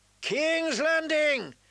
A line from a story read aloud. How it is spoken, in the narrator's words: his men cried raggedly